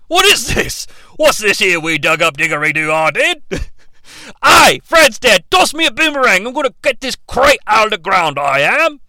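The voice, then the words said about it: Exaggerated put-on Australian accent. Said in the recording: “cannot contain his Australian accent ... cannot contain their Australian accents”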